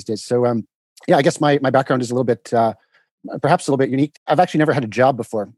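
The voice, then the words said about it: Canadian accent. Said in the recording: “I'm the guy with the funny accent ... you're Canadian.”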